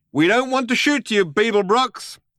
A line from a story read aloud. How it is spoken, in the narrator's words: shouted the figure